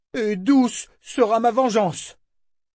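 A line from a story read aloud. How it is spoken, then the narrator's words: Roared toward the sea. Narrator (French): rugit-il vers la mer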